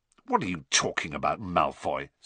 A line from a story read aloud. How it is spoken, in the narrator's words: said Ron roughly